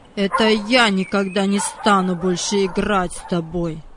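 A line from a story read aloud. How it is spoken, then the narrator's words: Cold. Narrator (Russian): Холодно сказал Владик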